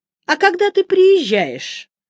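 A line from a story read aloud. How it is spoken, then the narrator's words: Asked cheerfully. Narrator (Russian): бодро поинтересовался Юити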